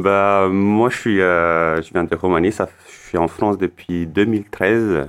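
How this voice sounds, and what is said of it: Slight foreign accent. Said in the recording (French): “il y a un petit accent chez”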